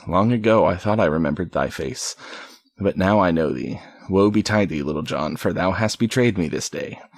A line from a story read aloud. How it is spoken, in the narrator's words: the sheriff said bitterly